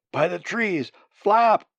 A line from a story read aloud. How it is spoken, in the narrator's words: he cried aloud